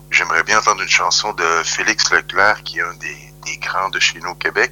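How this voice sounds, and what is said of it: Slight Québécois French accent. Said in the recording (French): “québécois d'origine, donc vous reconnaîtrez le petit accent”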